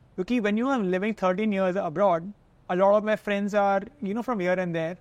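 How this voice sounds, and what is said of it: Indian-accented English. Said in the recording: “I have been made fun of so many times for my Indian accent”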